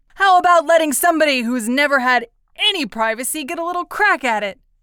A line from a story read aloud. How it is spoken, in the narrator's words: Eddie demanded hotly